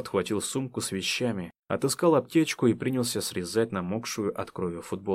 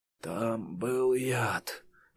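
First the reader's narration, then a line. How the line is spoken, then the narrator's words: Quiet, pained, distant. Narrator (Russian): Голос защитника звучал издалека тихо и болезненно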